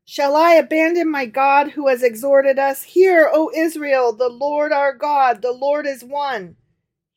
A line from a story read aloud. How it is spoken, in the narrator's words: he cried out